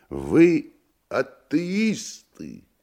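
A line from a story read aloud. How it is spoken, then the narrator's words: Curious squealing question. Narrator (Russian): Иностранец спросил, даже привизгнув от любопытства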